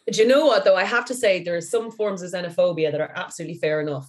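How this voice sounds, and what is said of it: Irish accent. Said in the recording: “you guys do have a very similar accent ... They're from Ireland.”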